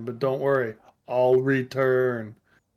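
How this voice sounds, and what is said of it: Deliberately bad celebrity voice impression. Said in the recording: “my terrible Arnold impression ... That's the whole point, is to fuck it up and say it wrong.”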